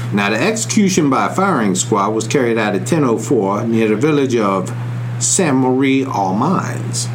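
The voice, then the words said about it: Put-on Southern American accent. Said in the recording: “that fake southern accent”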